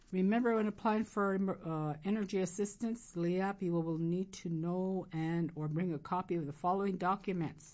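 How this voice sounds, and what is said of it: Hoarse, strained voice. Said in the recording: “Losing my voice here.”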